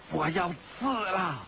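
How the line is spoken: Loud shout. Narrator (Chinese): 黑衣人大声叫道

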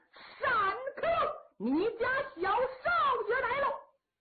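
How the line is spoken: Young general shouting. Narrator (Chinese): 一员小将 边走边喊

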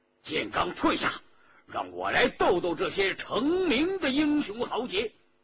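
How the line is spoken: Angry shout. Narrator (Chinese): 周仲英明知他误会，但也不由得恼怒，叫道

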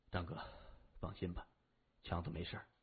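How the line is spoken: Low voice, dizzy. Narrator (Chinese): 谢文东压住头晕的感觉，他低声说

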